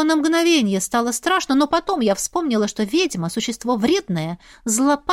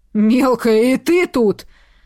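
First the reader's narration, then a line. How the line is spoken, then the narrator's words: Young man growling. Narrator (Russian): зарычал юноша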